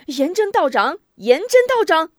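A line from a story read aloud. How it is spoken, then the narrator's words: Hurried shout. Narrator (Chinese): 许仁忙喊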